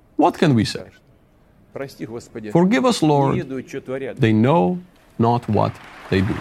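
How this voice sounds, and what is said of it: Put-on Russian accent, slipping. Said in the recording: “My Russian accent is getting worse the longer this goes along.”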